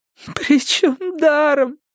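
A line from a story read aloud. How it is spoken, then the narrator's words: Sobbing. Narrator (Russian): сказала Стефани, рыдая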